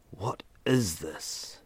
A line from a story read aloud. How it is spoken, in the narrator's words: Ethan whispered, his voice betraying the fear sprouting in the pit of his stomach